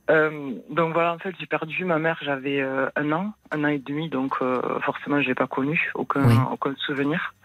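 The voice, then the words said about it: Southern French accent. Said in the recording (French): “joli accent du Sud”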